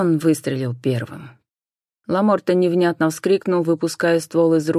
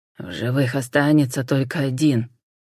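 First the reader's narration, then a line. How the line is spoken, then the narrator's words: Through gritted teeth. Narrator (Russian): процедил Рафаэль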